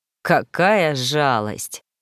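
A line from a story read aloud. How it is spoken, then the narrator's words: Muttered. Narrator (Russian): пробормотал Ремгар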